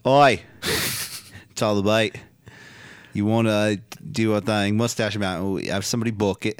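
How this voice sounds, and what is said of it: Put-on Australian accent. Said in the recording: “That's Australian. I'm sorry, I'm doing the wrong accent here.”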